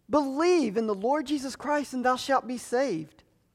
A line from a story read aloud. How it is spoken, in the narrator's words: Harper pleads with him